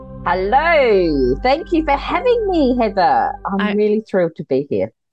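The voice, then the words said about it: Pleasant foreign accent. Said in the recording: “I just love your accent. I could listen to you talk forever.”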